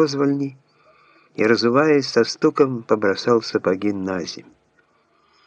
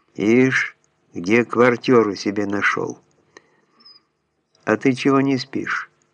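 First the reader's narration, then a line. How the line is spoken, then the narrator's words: Plain. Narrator (Russian): спросил зять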